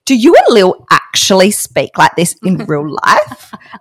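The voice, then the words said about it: Put-on reading voice. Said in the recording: “putting on a voice”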